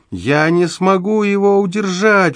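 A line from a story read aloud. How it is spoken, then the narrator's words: Desperate howl. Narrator (Russian): взвыл он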